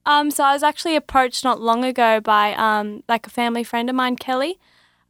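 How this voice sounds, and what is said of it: Australian accent. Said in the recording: “you, Australia ... That's a wonderful accent.”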